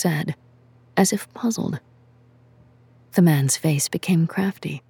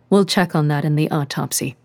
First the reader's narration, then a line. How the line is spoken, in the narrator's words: she said as evenly as she could